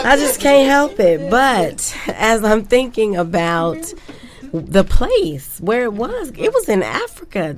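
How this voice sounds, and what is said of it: Smooth radio announcer voice. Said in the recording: “put on this radio voice.”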